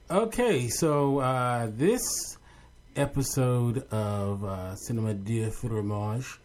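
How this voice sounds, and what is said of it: Put-on French-style accent. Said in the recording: “Listen to you. Oh, my goodness. That's a very good accent. ... Quel accent!”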